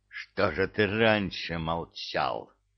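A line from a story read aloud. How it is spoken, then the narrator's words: Growled, veteran. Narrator (Russian): рычал бывалый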